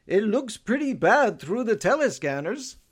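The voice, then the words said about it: Good impression of Sven. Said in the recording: “That's actually a really good impression.”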